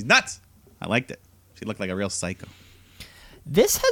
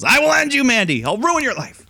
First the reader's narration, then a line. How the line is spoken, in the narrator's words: she yells